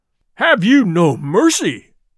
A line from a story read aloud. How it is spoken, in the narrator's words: cried Tell, trembling with indignation